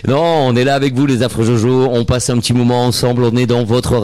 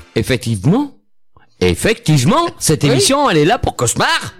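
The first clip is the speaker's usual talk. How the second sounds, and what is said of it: Put-on Antillean French accent. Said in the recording (French): “J'adore ton accent antillais. ... T'as vu, je l'ai travaillé.”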